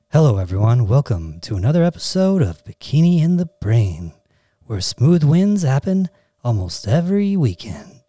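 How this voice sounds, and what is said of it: Smooth jazz DJ radio voice. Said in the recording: “I'm like a smooth jazz DJ ... my jazz DJ radio voice intro”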